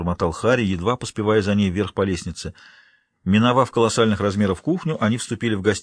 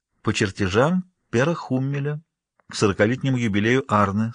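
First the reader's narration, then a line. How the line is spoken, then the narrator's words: Plain. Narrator (Russian): сказала Вигдис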